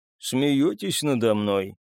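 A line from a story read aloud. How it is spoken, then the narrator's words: Tired, mild sighing question. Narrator (Russian): Беззлобно, не смутившись, а только устало вздохнув, спросил Копиевский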